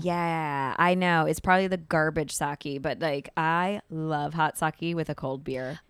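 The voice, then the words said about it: Rough, congested morning voice. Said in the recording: “I wake up really congested ... I coughed a ton this morning ... my voice is a little like, I was out all night”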